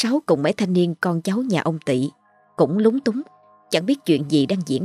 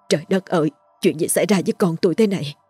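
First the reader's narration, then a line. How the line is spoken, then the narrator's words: Tearful, trembling voice. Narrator (Vietnamese): Nước mắt bà tuôn trào, giọng run rẩy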